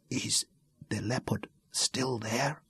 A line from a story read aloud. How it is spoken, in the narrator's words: she asked, a breath of a whisper very close to his ear